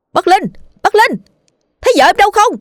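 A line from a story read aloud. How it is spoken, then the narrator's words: Shouting. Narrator (Vietnamese): Dần hét lên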